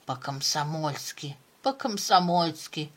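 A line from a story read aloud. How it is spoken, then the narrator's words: Hoarse rasp. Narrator (Russian): прохрипел он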